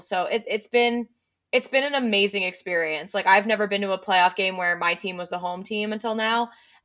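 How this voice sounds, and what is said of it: Hoarse, strained voice. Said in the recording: “you guys can probably hear it in my voice. I mean, I feel it in my throat. Like I have lost my voice from screaming.”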